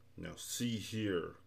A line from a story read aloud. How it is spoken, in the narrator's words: growled Tak angrily